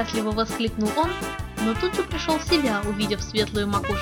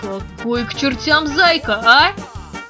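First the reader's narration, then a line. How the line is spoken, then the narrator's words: Shouted, young man. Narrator (Russian): выкрикнул парень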